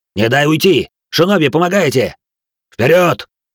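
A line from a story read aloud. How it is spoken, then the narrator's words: Matching bark, stimulant-fueled. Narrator (Russian): В тон ему рявкнул Бенджиро, проглотивший сразу тройную дозу стимулятора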